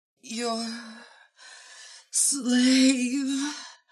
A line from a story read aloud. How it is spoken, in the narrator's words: Hawkwoman moaned